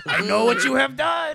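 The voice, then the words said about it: Exaggerated evil French accent. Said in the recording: “That was the evilest French accent I've ever heard in my life.”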